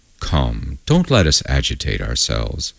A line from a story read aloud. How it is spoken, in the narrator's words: Mamakov, her household doctor, observed in a honeyed voice